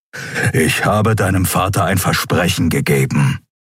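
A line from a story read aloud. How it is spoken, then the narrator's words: Growling. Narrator (German): knurrte er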